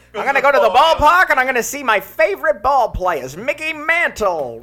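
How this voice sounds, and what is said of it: Old-fashioned Transatlantic accent. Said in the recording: “He had the accent too ... That accent's wild. That's made up ... it's called the Transatlantic accent”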